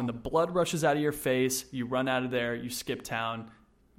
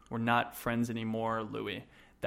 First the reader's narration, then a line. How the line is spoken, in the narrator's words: Bulger coldly responded